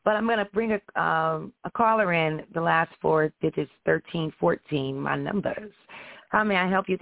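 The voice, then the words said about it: Hoarse, congested voice. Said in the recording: “I am congested ... I'm a little hoarse. I've been quite hoarse for a few days.”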